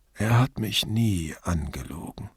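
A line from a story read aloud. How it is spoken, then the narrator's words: Sad, sarcasm dropped. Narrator (German): Er gab den sarkastischen Tonfall auf und fügte traurig hinzu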